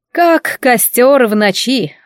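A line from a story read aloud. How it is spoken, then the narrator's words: Snorting woman. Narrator (Russian): фыркнула дама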